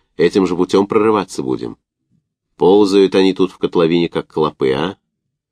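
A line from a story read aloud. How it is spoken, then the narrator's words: Indifferent question. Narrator (Russian): спросил безразличным тоном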